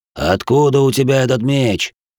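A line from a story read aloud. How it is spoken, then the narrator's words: Snapping retort. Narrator (Russian): Я огрызнулся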